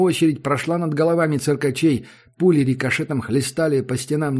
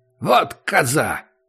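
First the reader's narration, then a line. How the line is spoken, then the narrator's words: Angry. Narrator (Russian): сказал Акопыч сердито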